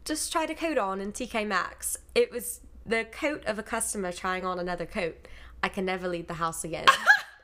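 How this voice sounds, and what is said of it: Put-on British accent. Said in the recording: “in a British accent”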